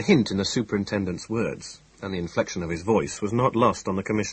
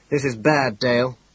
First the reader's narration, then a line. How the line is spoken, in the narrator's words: he said irritably